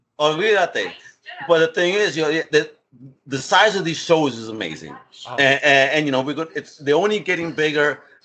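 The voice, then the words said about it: New York accent. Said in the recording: “You can even hear that shit in my voice because I hear people tell me you got a New York accent.”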